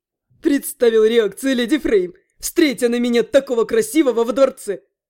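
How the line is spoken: Snorting. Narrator (Russian): Ас хмыкнул

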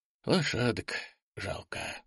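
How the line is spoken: Sighing. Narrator (Russian): вздохнул Андрей

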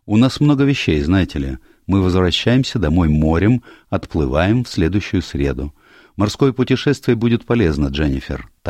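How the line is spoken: Plain. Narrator (Russian): так сказал врач

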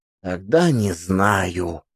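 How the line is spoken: Dejected drawl, boy. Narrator (Russian): уныло протянул пацан

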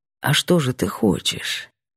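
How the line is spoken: Rumbling hoarse sly whisper. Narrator (Russian): ракочущие нотки в хриплом шепоте наглого, хитрого котяры

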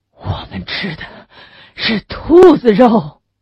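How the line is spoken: Breathless. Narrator (Chinese): 胡永顺气喘吁吁地说

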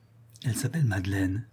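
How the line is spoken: Murmur. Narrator (French): murmura Richard

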